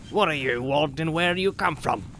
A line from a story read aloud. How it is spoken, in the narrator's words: asked gruffly